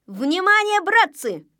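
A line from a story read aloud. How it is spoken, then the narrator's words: Shout. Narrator (Russian): закричал он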